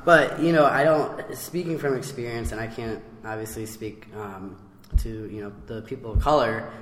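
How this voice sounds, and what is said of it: Hoarse, strained voice. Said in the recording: “forgive my voice, I'm kind of losing it”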